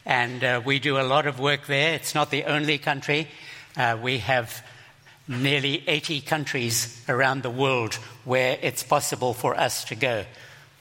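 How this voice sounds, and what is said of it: Zimbabwean-accented English. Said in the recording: “you will forgive me for my accent... I keep having to apologize for it. I was born in Zimbabwe”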